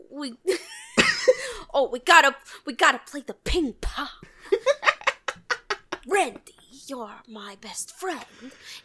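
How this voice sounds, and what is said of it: Imitates another person's voice, poorly. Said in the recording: “do a Christopher Walken impersonation ... it also went very poorly ... Every impression that I do is bad.”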